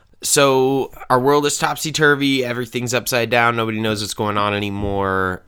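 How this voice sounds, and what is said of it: Sick, flu-affected voice. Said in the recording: “My voice is brought to you by the coronavirus, which I actually don't have ... What I have is influenza B, most likely.”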